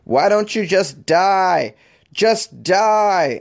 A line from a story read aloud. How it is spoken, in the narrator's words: a toddler was screaming